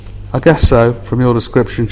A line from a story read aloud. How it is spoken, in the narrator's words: said